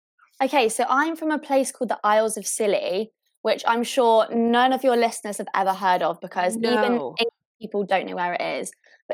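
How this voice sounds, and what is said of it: Generic English accent. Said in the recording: “you have a little bit of an accent ... This is just a generic English accent. It's very generic. ... It's so fancy to us”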